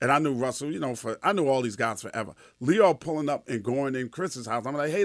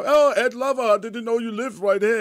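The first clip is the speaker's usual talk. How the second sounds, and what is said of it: Imitating Lyor Cohen's accent. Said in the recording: “Leo Cohen accent is funny as shit.”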